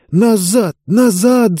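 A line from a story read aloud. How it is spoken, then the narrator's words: Hiss. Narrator (Russian): зашипела она своим товарищам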